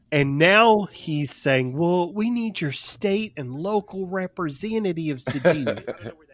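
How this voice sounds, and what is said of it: Poor accent imitating another person. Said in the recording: “I don't know where that accent came from. ... That was a horrible accent ... I wasn't trying to impersonate him”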